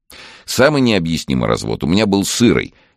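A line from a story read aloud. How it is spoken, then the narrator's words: Cheerful. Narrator (Russian): весело начал рассказывать Андрей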